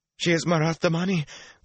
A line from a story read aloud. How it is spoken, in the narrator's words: the pale girl wailed